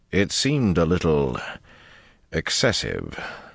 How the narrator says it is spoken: Dobrain interrupted smoothly

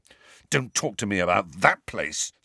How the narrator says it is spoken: said Harry fiercely

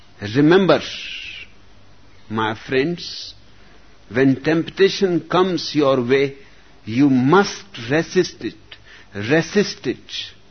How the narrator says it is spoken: A moralist addressing an audience thundered

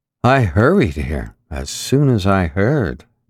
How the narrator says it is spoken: Goltz said lazily

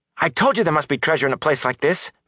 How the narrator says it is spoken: Matt exclaimed

